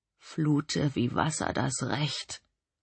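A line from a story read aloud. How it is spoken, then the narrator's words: Murmured. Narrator (German): murmelte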